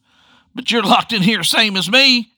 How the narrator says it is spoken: he yelled out

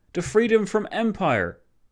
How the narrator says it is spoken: O'Kelly exclaiming

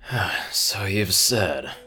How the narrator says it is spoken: Dusty wearily said

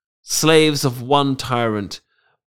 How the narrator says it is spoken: Palantius sighed

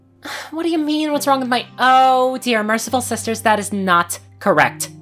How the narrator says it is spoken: screeched

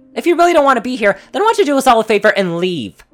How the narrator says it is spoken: Rainbow shouted

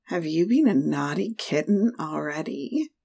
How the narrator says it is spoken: added, and they both chuckled

